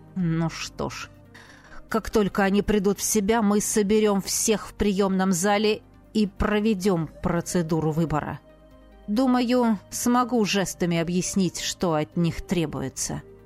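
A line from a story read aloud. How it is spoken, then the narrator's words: Growled. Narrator (Russian): Радьяр прорычал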